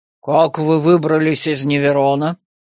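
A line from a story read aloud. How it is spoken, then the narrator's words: Unexpected deep bass question. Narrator (Russian): Неожиданным басом спросил воинственный дядька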